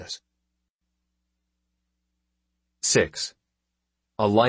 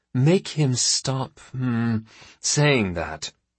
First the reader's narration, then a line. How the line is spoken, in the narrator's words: growls Monsari